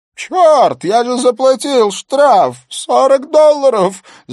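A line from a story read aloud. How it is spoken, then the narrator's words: Shrieking. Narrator (Russian): завизжал Хантер Робертсон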